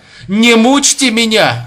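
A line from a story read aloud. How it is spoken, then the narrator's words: Desperate scream. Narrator (Russian): закричал он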